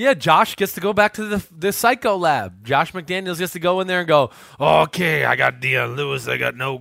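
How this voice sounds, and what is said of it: Usual voice. Nothing is said of it.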